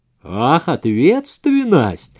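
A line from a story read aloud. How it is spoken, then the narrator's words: Eerie sarcastic booming, fearful. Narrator (Russian): прогудела она с каким-то жутковатым сарказмом, она боится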